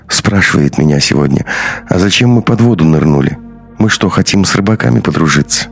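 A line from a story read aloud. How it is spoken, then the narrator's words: Sighing. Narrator (Russian): Андрей вздохнул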